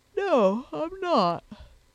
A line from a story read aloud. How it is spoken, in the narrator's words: said Sponge, yawning again